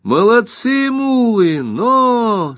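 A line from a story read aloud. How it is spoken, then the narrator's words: Laughing shout. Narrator (Russian): со смехом закричала Рионда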